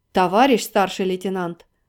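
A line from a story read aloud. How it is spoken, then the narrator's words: Stern interruption. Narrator (Russian): пытался строго остановить его полковник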